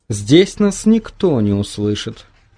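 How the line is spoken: Calm remark. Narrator (Russian): спокойно заметила она

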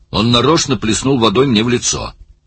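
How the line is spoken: Angry. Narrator (Russian): сердито сказал Оттер

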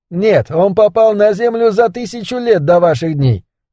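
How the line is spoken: Calm speech. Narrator (Russian): сказал спокойно Ричард

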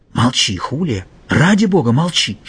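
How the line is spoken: Whisper. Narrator (Russian): шепнул он девушке

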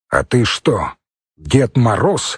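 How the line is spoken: Father's stern question. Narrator (Russian): строго спросил отец

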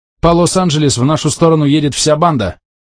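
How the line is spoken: Shout. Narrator (Russian): крикнул он

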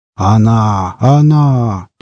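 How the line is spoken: Old man's deep voice. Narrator (Russian): пробасил дед

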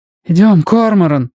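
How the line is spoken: Pleading. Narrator (Russian): взмолился Робин

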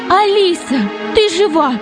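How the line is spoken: Mother crying out. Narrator (Russian): закричала мама

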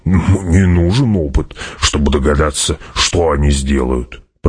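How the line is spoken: Grumbling. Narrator (Russian): проворчал Гурни

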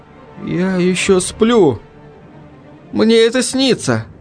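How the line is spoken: Frightened muttering, male. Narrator (Russian): испуганно пробормотал он

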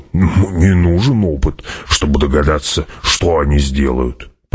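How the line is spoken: Grumble. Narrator (Russian): проворчал Гурни

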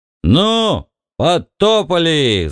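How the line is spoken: Yelling. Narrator (Russian): заорал Бикс

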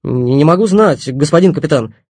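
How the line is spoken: Shouted out. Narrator (Russian): выкрикнул Оноженко

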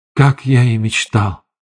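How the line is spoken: Whispered. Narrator (Russian): прошептал

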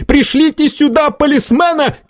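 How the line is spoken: Shouted. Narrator (Russian): крикнул Варбек

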